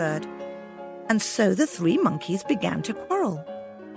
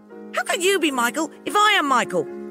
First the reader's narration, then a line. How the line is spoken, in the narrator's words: the first cried angrily